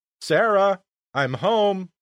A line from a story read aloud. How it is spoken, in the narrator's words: I announce loudly